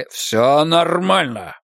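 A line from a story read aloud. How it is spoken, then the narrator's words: Growl. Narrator (Russian): прорычал фьерданец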